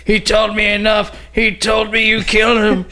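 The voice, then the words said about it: Pained, crying movie character voice. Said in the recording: “That's a good Luke impression ... he was like pain and crying like he always did”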